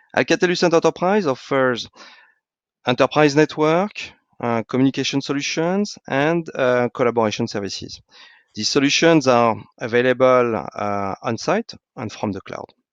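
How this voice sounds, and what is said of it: French accent. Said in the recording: “as you can hear from my accent, is a French company”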